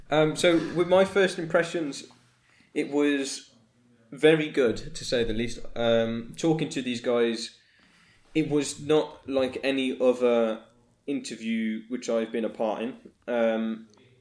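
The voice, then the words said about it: Strong Brummie Birmingham English accent. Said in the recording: “I'm a Brummie ... that's accent. And pretty strong at that. It's not subtle in any way.”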